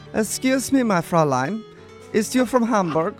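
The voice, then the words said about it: Put-on German accent. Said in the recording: “Good accent. ... in my best German accent.”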